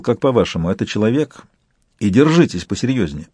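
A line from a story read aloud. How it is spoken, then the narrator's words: Dry question. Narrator (Russian): Также сухо канцлер спросил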